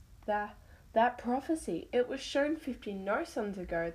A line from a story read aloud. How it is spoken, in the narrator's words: the dove cried